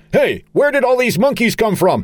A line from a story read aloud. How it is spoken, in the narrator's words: Charlie, shouting